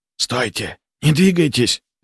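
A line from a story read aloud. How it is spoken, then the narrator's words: Whisper. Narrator (Russian): прошептал я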